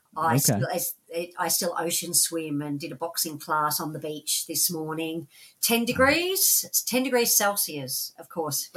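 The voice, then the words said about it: Australian accent. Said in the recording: “she has that very vaunted, wonderful Australian accent”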